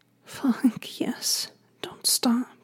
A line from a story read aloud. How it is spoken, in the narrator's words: begged, her keening moan